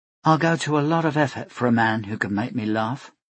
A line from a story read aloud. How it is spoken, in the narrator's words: she said softly